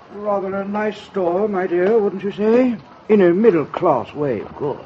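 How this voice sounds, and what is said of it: Refined, snobbish upper-class accent. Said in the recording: “Listen to that accent. ... So refined.”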